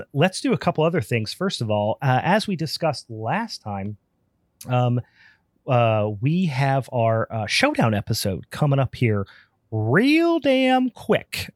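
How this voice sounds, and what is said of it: Hoarse voice. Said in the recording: “Excuse me if I'm a little hoarse on this one. I'm getting over a hell of a nasty cold.”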